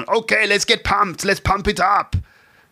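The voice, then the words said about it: Imitates another person's voice. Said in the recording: “my Arnold Schwarzenegger impression ... That was my Arnie impression.”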